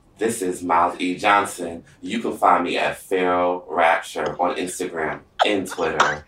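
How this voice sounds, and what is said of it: Put-on love voice. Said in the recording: “do my love voice.”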